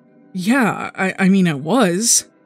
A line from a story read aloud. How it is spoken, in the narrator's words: Morgan stammers